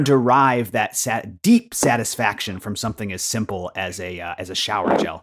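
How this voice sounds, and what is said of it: Usual voice. Nothing is said of it.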